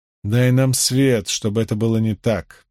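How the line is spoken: Grumbling woman. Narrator (Russian): проворчала Морейн

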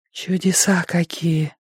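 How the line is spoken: Breathy girl's exhale. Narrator (Russian): выдохнула девочка

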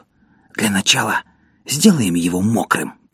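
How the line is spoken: Whisper. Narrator (Russian): прошептал Поль

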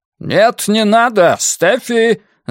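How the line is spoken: Man shouting after someone. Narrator (Russian): закричал ей вслед мужчина

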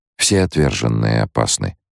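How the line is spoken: Unruffled calm. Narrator (Russian): ответил Лето невозмутимым тоном

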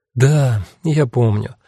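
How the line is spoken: Sigh. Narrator (Russian): вздохнула Кара

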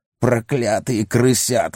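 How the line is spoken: Hissed. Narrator (Russian): зашипел он

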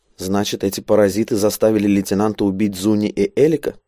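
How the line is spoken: Plain. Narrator (Russian): спросил Спул

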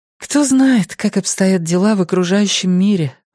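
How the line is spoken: Sighing. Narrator (Russian): вздохнула Сяо Мэн

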